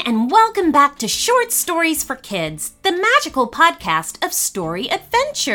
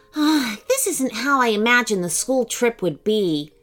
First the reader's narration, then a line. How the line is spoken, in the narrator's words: she muttered glumly